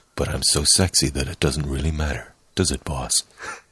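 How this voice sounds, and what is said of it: Deep, dulcet character voice. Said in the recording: “a nice, deep, dulcet tone voice ... Give it your Iron Bull voice”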